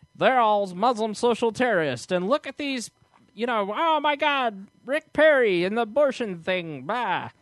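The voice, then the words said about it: Imitates another person's voice, unconvincingly. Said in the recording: “my best Rachel Maddow impression ... you suck at Rachel Maddow ... You're not nearly angry enough or masculine”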